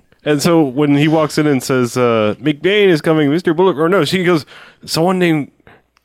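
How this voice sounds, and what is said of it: Usual voice. Nothing is said of it.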